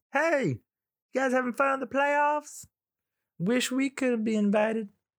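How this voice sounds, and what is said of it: Put-on accent. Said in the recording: “No clue why I have that accent.”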